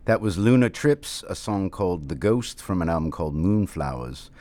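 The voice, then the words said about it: Affected British accent. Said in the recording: “I am using an affected British accent”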